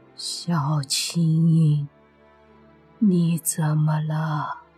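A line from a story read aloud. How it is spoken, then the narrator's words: Slightly hoarse voice. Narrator (Chinese): 那鬼师用稍微沙哑的声音对孙晴说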